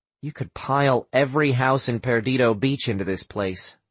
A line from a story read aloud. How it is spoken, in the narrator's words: Sam said